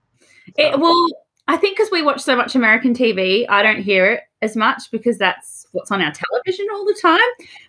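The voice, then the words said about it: Australian accent. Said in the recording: “the dental hygienist from Australia, as you can tell by my voice ... your accent”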